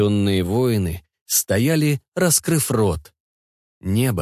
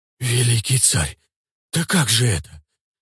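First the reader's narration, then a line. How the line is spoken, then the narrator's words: Shocked warriors whispering. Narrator (Russian): шептали потрясенные воины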